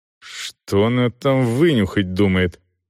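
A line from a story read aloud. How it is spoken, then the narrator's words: Irritated inner thought. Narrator (Russian): раздраженно подумал Селдон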